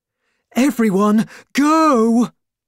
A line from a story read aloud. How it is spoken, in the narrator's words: cried Miss Zebra